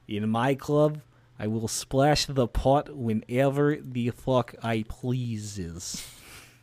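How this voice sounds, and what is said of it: John Malkovich's bad Russian accent. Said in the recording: “John Malkovich in Rounders ... The worst Russian accent I've ever heard.”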